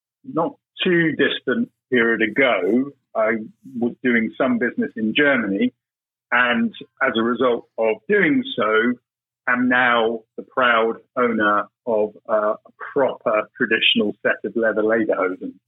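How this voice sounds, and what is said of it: British accent. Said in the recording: “Being British, as you can probably tell by my accent”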